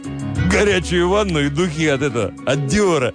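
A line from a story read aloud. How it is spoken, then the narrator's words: Chuckling. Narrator (Russian): Шофер хохотнул и добавил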